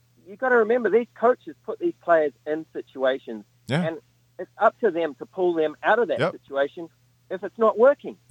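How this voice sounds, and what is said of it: Striking accent. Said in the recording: “What an accent. What a voice.”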